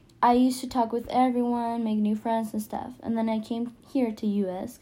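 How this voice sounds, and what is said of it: Non-native English accent. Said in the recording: “I have an accent. So that means I'm not from here. English is my second language”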